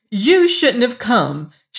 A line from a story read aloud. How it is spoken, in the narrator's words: she cried